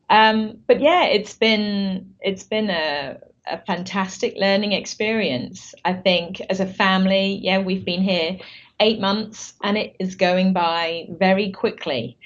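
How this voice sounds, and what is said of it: British accent. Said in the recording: “both of us originally from the UK ... I've been wondering if my accent, you know, would slip slightly”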